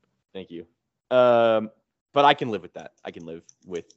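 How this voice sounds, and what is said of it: Usual voice. Nothing is said of it.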